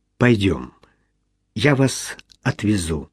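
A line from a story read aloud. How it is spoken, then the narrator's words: Quiet. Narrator (Russian): тихо сказал Джон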